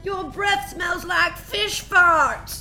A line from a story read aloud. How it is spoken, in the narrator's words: yelled